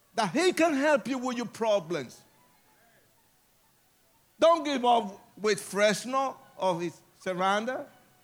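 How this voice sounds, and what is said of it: Speaks with a noticeable accent. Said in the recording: “You can tell that I do have an accent, right? ... Yes. ... I do have a sexy accent.”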